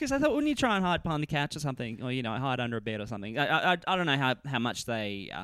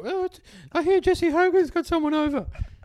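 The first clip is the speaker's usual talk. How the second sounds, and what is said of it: Put-on character voice. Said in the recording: “I put on a voice.”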